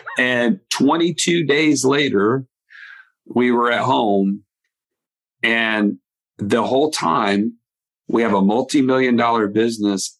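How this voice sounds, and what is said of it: Southern US Alabama accent. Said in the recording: “I'm in Alabama, for those of you that can't hear it in my accent.”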